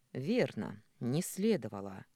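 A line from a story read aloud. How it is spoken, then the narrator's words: Sullen reply. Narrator (Russian): угрюмо ответил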